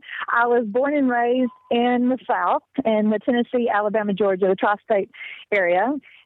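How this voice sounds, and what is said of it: Mixed, hard-to-place accent. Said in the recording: “you have an accent that's all confused ... Yes, it is a very confused accent.”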